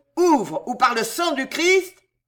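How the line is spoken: Roar. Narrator (French): rugit Danville

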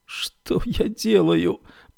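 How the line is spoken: Anguished moan. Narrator (Russian): простонала Феба

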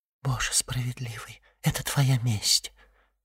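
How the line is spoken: Whisper. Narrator (Russian): прошептала госпожа Данглар

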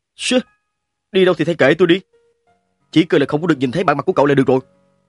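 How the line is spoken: Cold. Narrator (Vietnamese): Dương Đình Phong lạnh lùng nói

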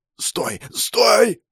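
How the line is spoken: Desperate hoarse wheeze. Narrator (Russian): прохрипел он, отчаянно дергаясь в западне

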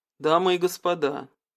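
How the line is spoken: Quiet calm voice. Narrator (Russian): тихим, спокойным голосом говорит Артур

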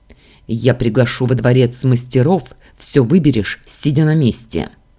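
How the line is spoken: Barked, barely restrained. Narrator (Russian): рявкнул я, сдерживаясь из последних сил

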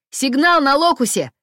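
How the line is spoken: Yelled. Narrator (Russian): завопил Купер

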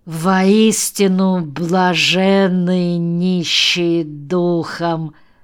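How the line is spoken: Slowly spoken. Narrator (Russian): медленно произнес он

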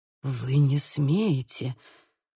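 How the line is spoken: Muttered. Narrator (Russian): пробормотал

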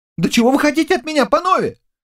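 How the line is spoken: Frightened young man shouting. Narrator (Russian): кричал перепуганный юноша

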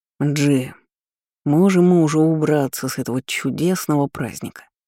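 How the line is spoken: Gloomy grumble. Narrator (Russian): хмуро проворчал Ламбикор

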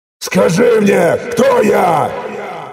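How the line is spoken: Loud roar. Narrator (Russian): Взревел я так сильно

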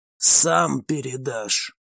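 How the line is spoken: Quiet. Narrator (Russian): тихо произнес

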